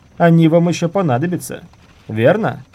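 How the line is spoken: Shouted. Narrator (Russian): крикнув юноше

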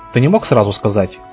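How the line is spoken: Grumbling. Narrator (Russian): буркнул

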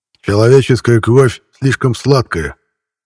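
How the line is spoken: Growl, trying to soften. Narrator (Russian): пытаясь сказать помягче, прорычал Хурх

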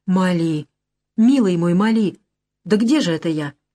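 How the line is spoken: Trembling voice. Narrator (Russian): дрожащим голосом спросил Андре

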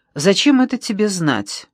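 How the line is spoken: Nervous, harsh voice. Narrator (Russian): ответила нервно, жестким голосом

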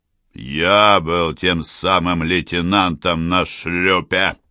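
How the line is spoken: Gloomy. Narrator (Russian): мрачно проговорил капитан

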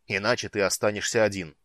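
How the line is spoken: Barking. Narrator (Russian): рявкнул Нутари

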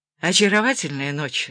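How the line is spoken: Sighed. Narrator (Russian): вздохнул Чарли

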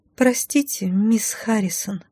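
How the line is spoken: Said quietly. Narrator (Russian): тихо произнесла она

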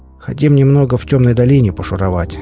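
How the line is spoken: Plain. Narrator (Russian): сказал я

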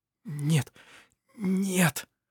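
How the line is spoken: Terrified whisper. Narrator (Russian): зашептал в ужасе

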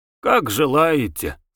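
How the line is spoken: Sighing. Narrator (Russian): сказал Косарев, вздохнув

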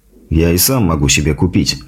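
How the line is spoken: Grumbling mutter. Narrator (Russian): буркнул я

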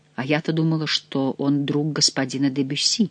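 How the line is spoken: Whisper. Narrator (Russian): прошептала она

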